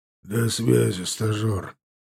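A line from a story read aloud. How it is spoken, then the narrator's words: Hoarse tired voice. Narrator (Russian): донесся хрипящий, уставший голос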